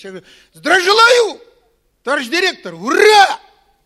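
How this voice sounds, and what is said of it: Shouting. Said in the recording (Russian): “вы не кричите”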